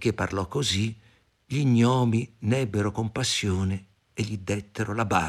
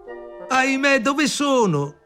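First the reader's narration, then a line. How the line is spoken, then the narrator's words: Shouting. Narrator (Italian): gridò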